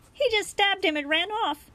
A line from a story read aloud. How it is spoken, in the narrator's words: he blurted out in a panic